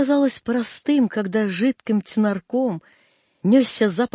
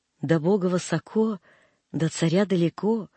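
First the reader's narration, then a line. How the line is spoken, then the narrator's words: Said gently. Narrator (Russian): ласково говорила мачка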